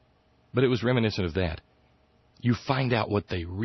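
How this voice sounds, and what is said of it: Usual voice. Nothing is said of it.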